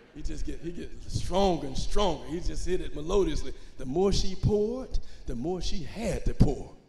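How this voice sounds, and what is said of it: Melodious preacher's whooping cadence. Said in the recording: “They got those melodious voices ... that's my imitation of a hoop”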